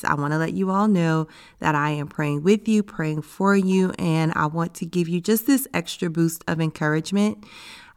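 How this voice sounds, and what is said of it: Raspy, hoarse voice. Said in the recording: “my voice sounds a little raspy ... I got sick with an upper respiratory infection that got pretty bad, and I lost my voice”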